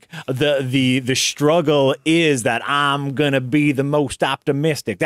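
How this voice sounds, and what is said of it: Imitates another person's voice. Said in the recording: “my Sandra Bullock impression”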